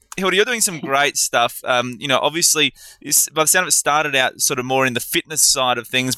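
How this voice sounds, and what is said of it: Australian accent. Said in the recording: “I kind of Aussified it, you know, add my little Aussie accent to it”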